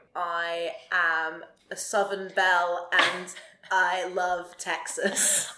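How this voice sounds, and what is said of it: Bad put-on Southern American accent. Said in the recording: “when I do a Southern accent, and I'm not from America ... a little Southern twang ... as bad as that was”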